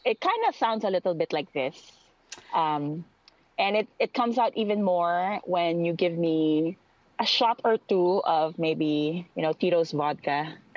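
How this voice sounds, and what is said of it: Filipino accent. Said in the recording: “my Tagalog, my Filipino accent ... if I talk like a Filipino person”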